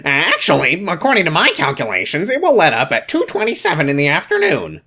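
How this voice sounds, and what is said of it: Mocking imitation of Kyle's voice. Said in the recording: “Kyle says, and I won't do the voice that I want to ... do the voice you want to”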